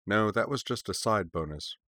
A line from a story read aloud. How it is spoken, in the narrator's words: remarked dryly